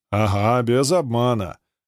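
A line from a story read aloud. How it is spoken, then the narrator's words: Short laugh. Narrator (Russian): хохотнул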